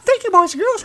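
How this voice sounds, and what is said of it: Mickey Mouse character voice. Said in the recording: “my worst Mickey Mouse impression you ever heard”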